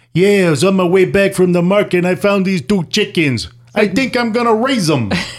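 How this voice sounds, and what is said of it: Put-on New York accent. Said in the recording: “Now, do it with a New York accent.”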